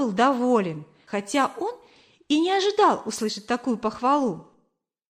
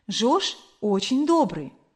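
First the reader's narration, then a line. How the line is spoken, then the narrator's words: Plain, old woman. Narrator (Russian): сказала старушка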